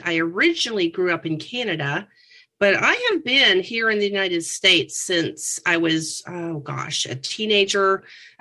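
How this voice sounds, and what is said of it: Slight Canadian accent. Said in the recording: “I heard your accent a little bit earlier. ... It's my oats and the boats.”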